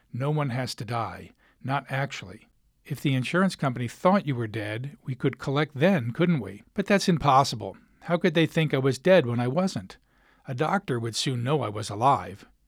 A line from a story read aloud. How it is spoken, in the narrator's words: Speaking very slowly, I said